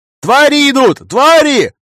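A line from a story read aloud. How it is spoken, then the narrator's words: Distant yelling, unfamiliar voice. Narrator (Russian): Орал с балкона незнакомый мне голос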